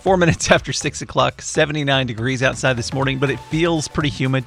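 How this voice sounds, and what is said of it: Congested voice, cracking. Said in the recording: “Don't know why my voice is cracking. I've been congested for like weeks now.”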